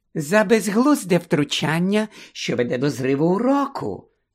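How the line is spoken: Silky explanation. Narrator (Ukrainian): шовковим голосом пояснила професорка Амбридж

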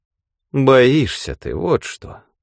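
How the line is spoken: Sighing. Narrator (Russian): снова вздохнул Брандт

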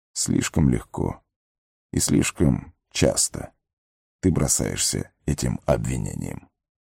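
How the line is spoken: Calm. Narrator (Russian): спокойно ответил Гэндальф

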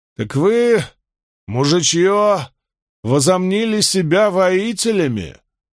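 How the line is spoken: Roaring. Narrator (Russian): взревел Байер

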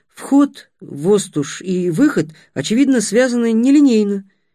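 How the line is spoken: Uncertain. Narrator (Russian): неуверенно проговорил Будимир

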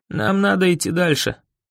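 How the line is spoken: Hoarse rasp. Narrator (Russian): прохрипел

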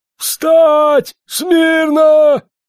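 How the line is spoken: Wild strained yell. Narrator (Russian): подполковник заорал не своим голосом

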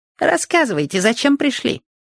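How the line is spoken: Squeaky voice. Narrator (Russian): пропищал Проныра

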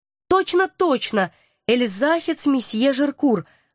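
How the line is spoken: Joyful confirmation. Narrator (Russian): радостно подтвердила девица

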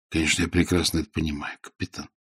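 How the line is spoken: Soft. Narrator (Russian): сказал он мягко

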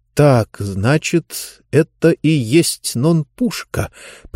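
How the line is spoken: Through gritted teeth. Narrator (Russian): процедил сквозь зубы Хэми

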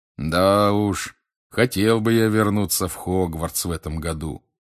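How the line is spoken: Drawling. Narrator (Russian): протянул Билл

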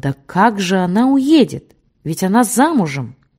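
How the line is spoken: Intrigued exclamation. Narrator (Russian): Заинтригованная Полина Андреевна воскликнула

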